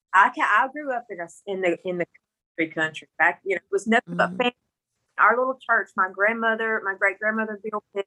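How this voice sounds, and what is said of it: Mississippi country accent. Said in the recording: “I'm from Mississippi with this country accent”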